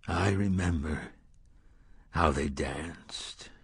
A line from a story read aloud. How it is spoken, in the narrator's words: the gunslinger said softly